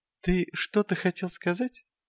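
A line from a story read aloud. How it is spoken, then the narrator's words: Soft inquiry. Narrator (Russian): мягким тоном осведомился Патриций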